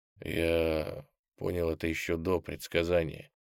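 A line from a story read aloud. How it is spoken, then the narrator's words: Hoarse. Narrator (Russian): хрипло проговорил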